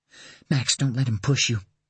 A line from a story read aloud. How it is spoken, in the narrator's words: Caroline pleaded from behind him, her voice louder now, but still harsh and broken